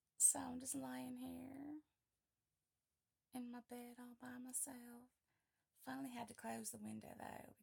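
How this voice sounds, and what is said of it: Put-on Southern drawl. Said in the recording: “I thought I would do an audio with my southern drawl”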